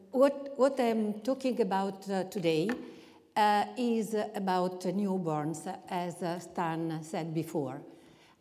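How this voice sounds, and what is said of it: Italian-accented English. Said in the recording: “I will try to speak my Italian English language”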